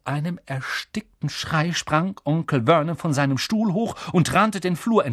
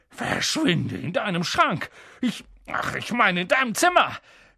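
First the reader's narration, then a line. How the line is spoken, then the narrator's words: Gasping. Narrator (German): japste er Harry zu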